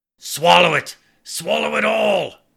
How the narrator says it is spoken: growled

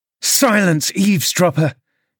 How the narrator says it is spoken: cried Catherine

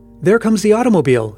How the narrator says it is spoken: exclaimed Paul excitedly

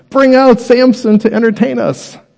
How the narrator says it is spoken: While they were in high spirits, they shouted

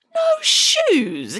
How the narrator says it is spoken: exclaimed Hannah Piggins

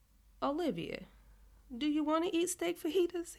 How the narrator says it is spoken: He says, laughing at me

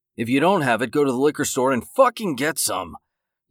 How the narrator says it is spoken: David growled

